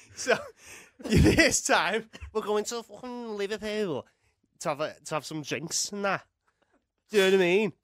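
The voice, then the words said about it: Thick Manchester accent, slightly Scouse. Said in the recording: “he sounds scouse ... You've got such a thick Manc accent, but every now and again it just kind of”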